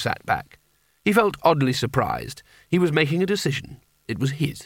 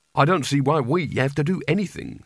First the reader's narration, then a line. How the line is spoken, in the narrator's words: said Rincewind